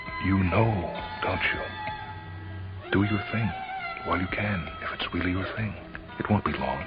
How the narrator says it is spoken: she whispered

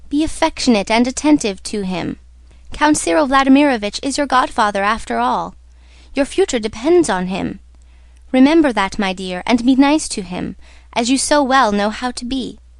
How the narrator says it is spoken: said the mother, timidly and tenderly

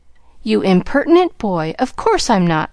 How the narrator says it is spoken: exclaimed Sally, with an air that proved the contrary

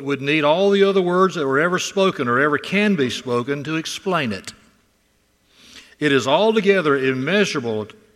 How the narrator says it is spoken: said Spurgeon

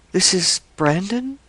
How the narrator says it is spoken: murmured Lake

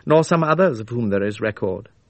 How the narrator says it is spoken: she said dryly

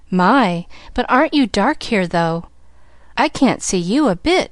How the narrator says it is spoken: she cried

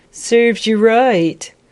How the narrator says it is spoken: someone above her called and laughed

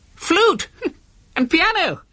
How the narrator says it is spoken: Professor Welch laughed briefly

